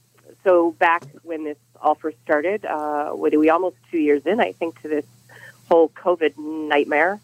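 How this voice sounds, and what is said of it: Raspy, under-the-weather voice. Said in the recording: “if ... sounds a little under the weather, it's because she is ... raspy”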